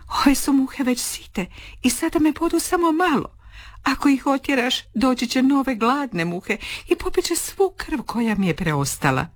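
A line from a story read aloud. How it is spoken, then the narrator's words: Sighing, explaining. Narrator (Croatian): Lisica uzdahne i objasni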